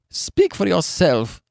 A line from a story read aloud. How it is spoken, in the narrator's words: she snapped through her sobs